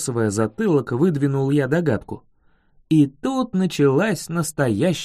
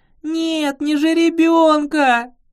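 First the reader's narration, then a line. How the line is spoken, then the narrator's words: Tearful sobbing. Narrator (Russian): Наматывая слезы на кулак, рыдала она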